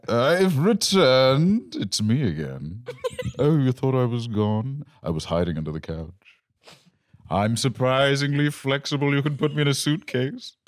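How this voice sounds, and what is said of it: Exaggerated posh proper accent. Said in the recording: “read this as well in a really proper accent”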